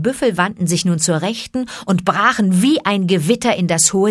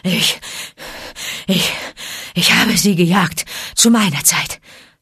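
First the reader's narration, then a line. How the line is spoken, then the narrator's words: Panted. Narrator (German): keuchte Akela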